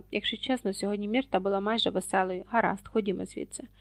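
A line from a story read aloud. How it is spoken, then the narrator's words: Weary. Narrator (Ukrainian): Герміона втомлено знизала плечима і сказала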